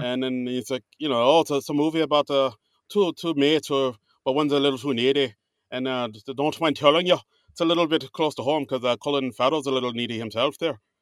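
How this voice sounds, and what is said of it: Put-on Irish accent. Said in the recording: “this Irish accent ... Not bad ... I'm not saying it's bad”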